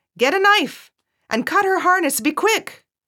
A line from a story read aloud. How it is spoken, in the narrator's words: shouted at the groom